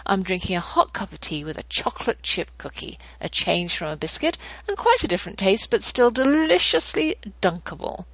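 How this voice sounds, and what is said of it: British accent. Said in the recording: “at least you can hear my accent and pretend you're in some lovely manor house across the pond”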